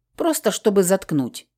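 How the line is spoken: Exasperated growl. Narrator (Russian): не выдержав, рыкнула я

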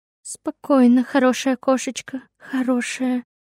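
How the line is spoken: Muttered while backing away. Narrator (Russian): Он медленно попятился назад, бормоча при этом

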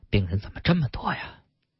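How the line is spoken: Sighing, soft mutter. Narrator (Chinese): 他叹了一口气，嘴里轻轻的叨了一句

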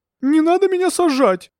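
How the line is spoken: Sudden scream. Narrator (Russian): закричала вдруг Алевтина

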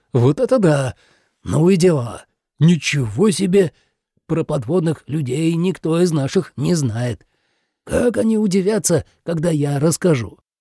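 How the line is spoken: Dreamy sigh. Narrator (Russian): мечтательно выдохнул

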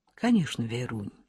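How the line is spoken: Quiet, tender reply. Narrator (Russian): тихо и ласково ответил Коля

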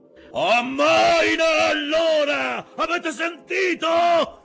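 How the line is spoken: Shouting across the deck. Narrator (Italian): urlò Acab da una parte all'altra del ponte

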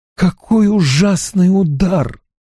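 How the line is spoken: Groaning. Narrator (Russian): простонал Гуччо

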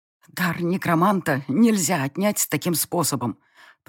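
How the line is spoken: Strained wheeze, in pain. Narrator (Russian): Просипела я, пытаясь унять горящее в груди пламя

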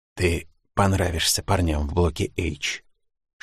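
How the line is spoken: Whisper. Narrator (Russian): шепнул

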